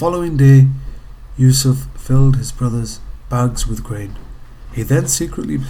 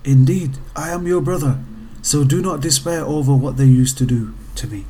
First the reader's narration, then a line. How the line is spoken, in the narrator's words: Yusuf ... whispered to his ear